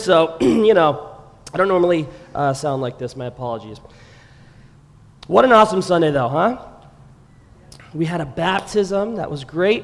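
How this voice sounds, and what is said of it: Hoarse, lost voice. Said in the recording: “Sorry about my voice, too, guys. Totally lost my voice ... I think it's like at about, smoker level, lifelong smoker”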